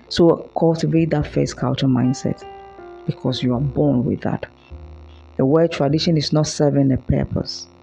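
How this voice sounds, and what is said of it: Hoarse, tired late-night voice. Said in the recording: “forgive me for my hoarse voice ... it's 2:02 a.m. here in Ghana, so it's a bit expected because my voice is crying out to sleep”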